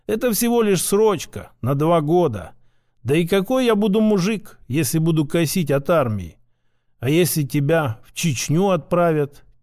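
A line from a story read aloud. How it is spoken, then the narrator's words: Soft whisper. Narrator (Russian): тихо прошептала любимая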